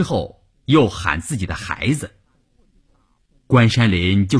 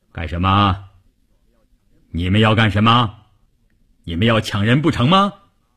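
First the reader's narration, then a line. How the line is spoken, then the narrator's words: Booming deafening voice. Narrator (Chinese): 一个大块头，一开口声音炸得人头皮都发麻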